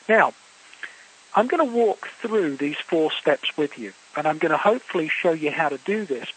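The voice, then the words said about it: Quick English accent. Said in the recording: “I have a quick English accent”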